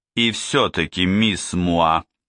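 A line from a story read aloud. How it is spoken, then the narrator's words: Asked in stern voice. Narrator (Russian): спросил Двали все тем же строгим голосом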